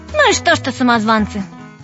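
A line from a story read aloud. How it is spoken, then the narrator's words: Cheerful. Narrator (Russian): сказала весело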